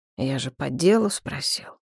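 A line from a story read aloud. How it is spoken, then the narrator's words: Quiet. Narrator (Russian): тихо сказал Нахт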